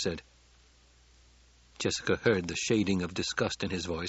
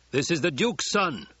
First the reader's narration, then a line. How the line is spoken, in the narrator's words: Stilgar barked